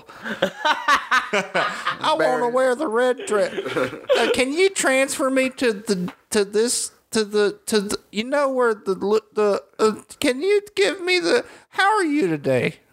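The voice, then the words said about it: Impression of a rambling lady caller. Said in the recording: “that is a great impression of every phone call I get. It's just a lady forgetting what she's saying three times in the middle”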